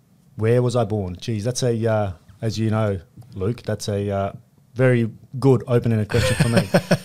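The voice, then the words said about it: Foreign accent. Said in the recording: “you can probably hear ... accent already”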